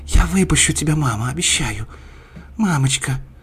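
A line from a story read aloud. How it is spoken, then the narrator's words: Whispered. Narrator (Russian): Она шептала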